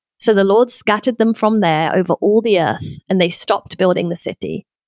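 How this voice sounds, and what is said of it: London accent. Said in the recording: “your London accent”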